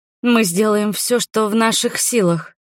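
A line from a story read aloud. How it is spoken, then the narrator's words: Forced out. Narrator (Russian): выдавила из себя я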